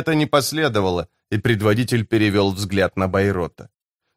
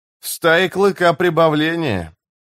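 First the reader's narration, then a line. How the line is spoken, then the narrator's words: With a snort. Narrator (Russian): Хмыкнув, Карса сказал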